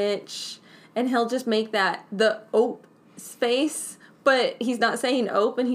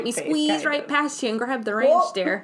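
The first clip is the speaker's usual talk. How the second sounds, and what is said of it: Put-on Wisconsin accent. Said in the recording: “That was my Wisconsin accent.”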